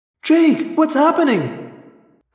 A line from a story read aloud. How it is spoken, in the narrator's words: Cassie cried